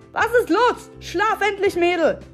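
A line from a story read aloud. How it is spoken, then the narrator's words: Father bellowing from another room. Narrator (German): brüllte ihr Vater aus dem Schlafzimmer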